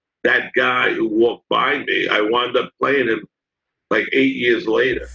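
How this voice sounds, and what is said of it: New York accent. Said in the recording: “your New York accent”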